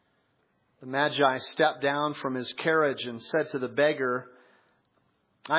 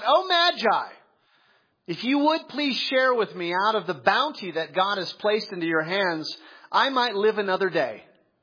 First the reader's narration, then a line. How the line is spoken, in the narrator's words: the beggar cried out